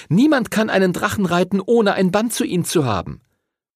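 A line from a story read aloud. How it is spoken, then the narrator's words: Calling out. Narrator (German): rief Chloe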